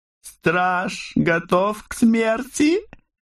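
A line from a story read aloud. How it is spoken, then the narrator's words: Chuckling. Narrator (Russian): хохотнул Айрик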